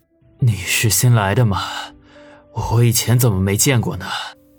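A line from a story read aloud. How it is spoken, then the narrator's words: Hoarse, cracked voice. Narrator (Chinese): 王宇说道，自己声音嘶哑，和一只破铜锣差不多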